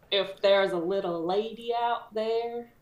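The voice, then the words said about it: Put-on Southern accent. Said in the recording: “I've already done a southern accent ... You become southern.”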